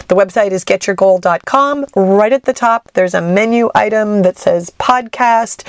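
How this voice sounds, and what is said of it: Raspy, stuffy-nosed sick voice. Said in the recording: “I am sick. I know you can hear it in my voice... raspy voices or stuffy noses”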